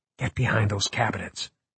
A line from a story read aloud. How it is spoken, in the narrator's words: Margot whispered